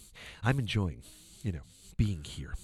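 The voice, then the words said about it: Breathy imitation of another person's voice. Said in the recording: “Can you do a Tom Cruise? ... You got the breathy stuff down”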